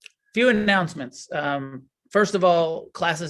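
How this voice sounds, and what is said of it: Usual voice. Nothing is said of it.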